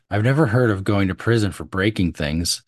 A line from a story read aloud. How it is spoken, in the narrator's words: Summers said